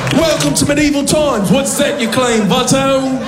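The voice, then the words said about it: Put-on English accent. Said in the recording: “Why did I choose an English accent”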